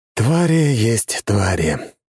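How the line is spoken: Sigh. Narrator (Russian): вздохнул

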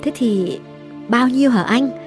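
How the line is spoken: Trembling yet calm. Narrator (Vietnamese): Hương run run, điềm tĩnh hỏi

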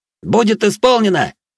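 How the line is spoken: Young man shouting reply. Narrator (Russian): выкрикнул в ответ паренек

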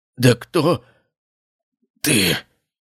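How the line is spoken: Weakening voice, repeating. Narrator (Russian): повторил он слабеющим голосом

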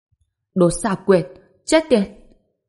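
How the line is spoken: Furious yell. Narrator (Vietnamese): Hoa Thiên Thần ngẩn ra, sau đó gào lên giận dữ

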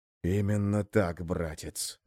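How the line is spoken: Hissed. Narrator (Russian): прошипел Крум

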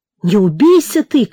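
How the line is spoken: Shouting after someone. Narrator (Russian): крикнула вдогонку

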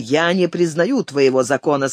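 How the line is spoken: Plain. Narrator (Russian): сказал он

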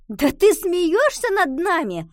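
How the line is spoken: Playful shout. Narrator (Russian): крикнула Ива

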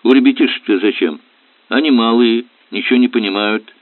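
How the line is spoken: Dropped remark, chuckling. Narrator (Russian): проронил рулевой и хохотнул

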